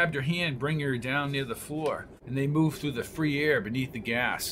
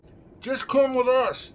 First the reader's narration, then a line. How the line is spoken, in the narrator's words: shouted McGee, his voice muffled